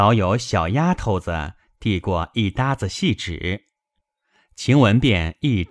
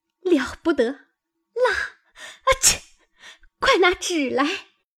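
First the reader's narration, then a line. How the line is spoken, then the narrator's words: Laughing. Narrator (Chinese): 晴雯笑道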